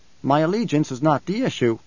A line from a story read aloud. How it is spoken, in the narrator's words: Skytail said